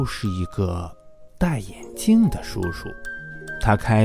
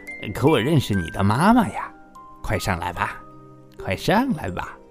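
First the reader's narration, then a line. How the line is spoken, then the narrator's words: Smiling man. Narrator (Chinese): 那个眼镜叔叔微笑着说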